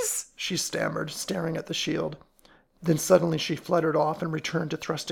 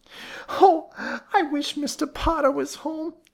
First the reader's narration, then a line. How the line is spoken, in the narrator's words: wailed